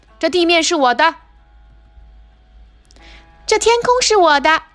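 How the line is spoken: Screaming. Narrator (Chinese): 莉迪亚尖叫着

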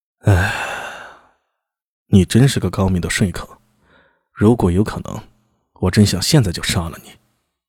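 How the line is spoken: Long sigh after pause. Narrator (Chinese): 蝶韵浑身一震，停了数息，他长叹一声

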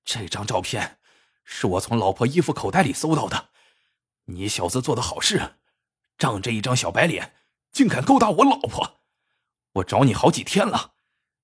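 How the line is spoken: Through gritted teeth. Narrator (Chinese): 小伙子咬牙切齿的说

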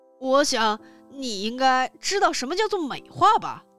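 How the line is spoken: Loud shouting. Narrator (Chinese): 他大声嚷道

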